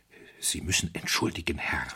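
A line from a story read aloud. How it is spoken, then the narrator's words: Hoarse whisper. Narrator (German): flüsterte heiser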